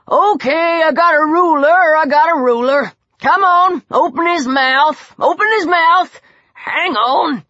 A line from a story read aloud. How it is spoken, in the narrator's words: Old Coot grunted